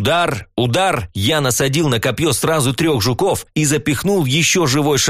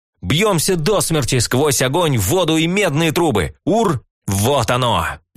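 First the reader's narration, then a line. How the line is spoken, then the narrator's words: Exclaiming, then guffawing. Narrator (Russian): Воскликнул и захохотал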